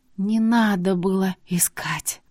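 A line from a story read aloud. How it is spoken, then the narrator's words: Hoarse rasp. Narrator (Russian): прохрипела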